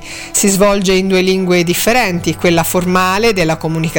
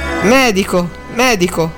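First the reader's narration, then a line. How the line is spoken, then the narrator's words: Almost stammering. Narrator (Italian): disse Drogo quasi balbettando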